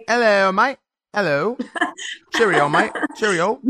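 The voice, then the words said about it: Poor put-on English accent. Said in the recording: “You need to work on your English accent, babe. ... You sound Australian. ... I like the accent.”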